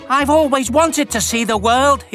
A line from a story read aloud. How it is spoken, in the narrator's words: exclaimed